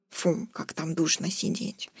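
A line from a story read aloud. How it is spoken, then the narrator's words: Gnome's grumbling. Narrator (Russian): заворчал гном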